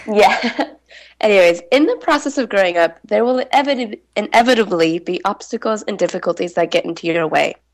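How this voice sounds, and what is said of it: Congested voice from a cold. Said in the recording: “I have a bit of a cold right now, so I apologize if anything comes out slightly garbled.”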